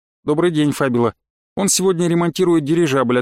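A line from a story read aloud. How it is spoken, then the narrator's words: Plain. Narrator (Russian): ответил я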